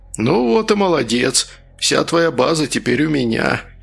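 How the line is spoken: Joyful voice. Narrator (Russian): радостным голосом сказал он

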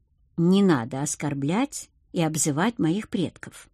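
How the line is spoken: Deceptively calm. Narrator (Russian): обманчиво спокойно произнес Акир

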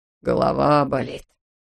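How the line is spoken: Groaning. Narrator (Russian): стонал хирург

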